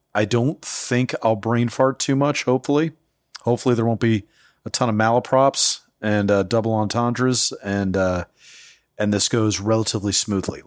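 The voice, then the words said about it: Tired, slightly scratchy voice. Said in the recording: “I'm still a little fatigued ... my voice is a little scratchy”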